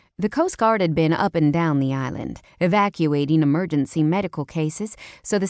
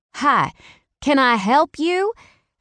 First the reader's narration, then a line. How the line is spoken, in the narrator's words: I shouted over the noise of the hovering helicopter